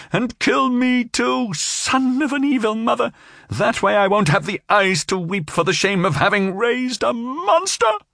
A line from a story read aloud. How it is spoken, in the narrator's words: she shouted